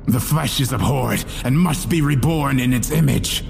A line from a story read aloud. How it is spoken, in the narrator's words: Wallace shouted, letting out a hysterical cackle as he struggled to hold his attacker down